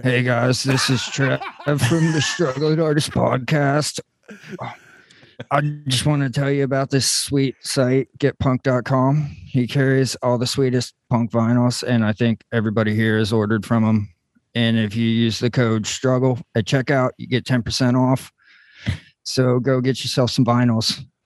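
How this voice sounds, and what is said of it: Imitates another person's voice. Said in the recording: “That was a pretty good impression... you just did a great impression of me”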